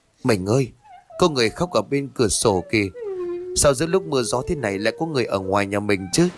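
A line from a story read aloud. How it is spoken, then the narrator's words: Soft frightened cry, trembling. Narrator (Vietnamese): rú lên khè khẽ, toàn thân run bần bật, mà nói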